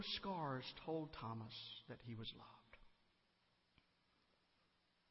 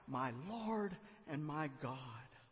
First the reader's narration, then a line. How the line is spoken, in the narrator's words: When Thomas saw Jesus' scars, he cried out